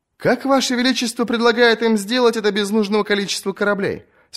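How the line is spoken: Plain. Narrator (Russian): спросил сир Лорес

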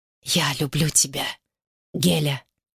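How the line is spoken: Passionate whisper. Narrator (Russian): горячо прошептал

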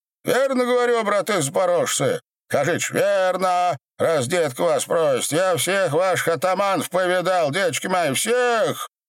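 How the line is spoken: Nonchalant booming after drinking. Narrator (Russian): Раздай беда, осушив самую великую баклагу, как ни в чем не бывал, прогудел

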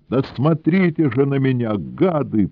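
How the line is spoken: Tearful shout. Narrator (Russian): плачущим голосом закричал Сенька

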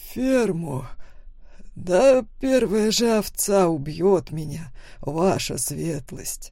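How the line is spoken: Chuckling loudly. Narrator (Russian): хохотнул Лоренцо

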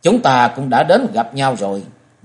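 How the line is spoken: Cold voice replying. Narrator (Vietnamese): một giọng nói lạnh lùng đáp lại

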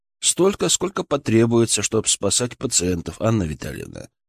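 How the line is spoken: Calm reply. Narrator (Russian): спокойно ответил я

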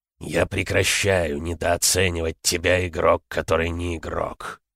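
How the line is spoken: Muttered grumble. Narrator (Russian): проворчал Херобрин себе под нос

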